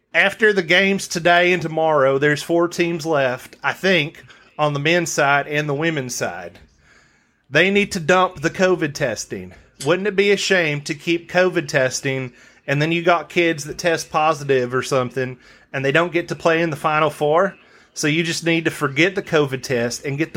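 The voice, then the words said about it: Rough put-on Southern US accent. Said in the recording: “I'm going to try it in my southern accent. It's been a while since I've been down there, so might be a little bit rough.”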